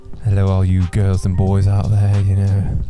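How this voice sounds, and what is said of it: Radio DJ voice, put-on British accent. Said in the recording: “That radio voice ... How do you think that ring. Voice is with the British accent?”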